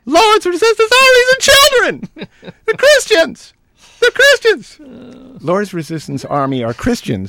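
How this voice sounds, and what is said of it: Strained, pinched Rush Limbaugh impression. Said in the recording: “do his voice ... How would Rush Limbaugh speak if he had a clothespin attached to his testicles? That's how I'm going to deliver this.”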